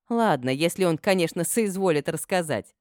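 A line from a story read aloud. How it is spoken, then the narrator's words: Laughing. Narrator (Russian): рассмеялась я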